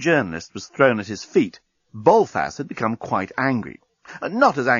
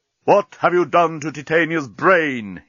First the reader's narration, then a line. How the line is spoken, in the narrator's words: he roared